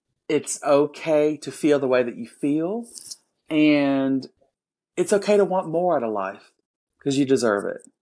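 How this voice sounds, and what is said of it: Southern accent. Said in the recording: “And beautiful southern accent.”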